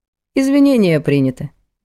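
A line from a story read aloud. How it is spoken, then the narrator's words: Cold. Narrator (Russian): холодно кивнула она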